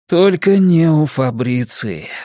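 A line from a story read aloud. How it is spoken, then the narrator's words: Sighing. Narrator (Russian): вздохнул Кориолан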